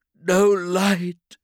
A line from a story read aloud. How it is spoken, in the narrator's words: she sobbed